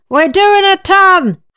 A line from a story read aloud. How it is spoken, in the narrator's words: I yelled